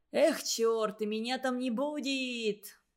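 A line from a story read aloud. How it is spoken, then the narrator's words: Groan. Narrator (Russian): простонал Игорек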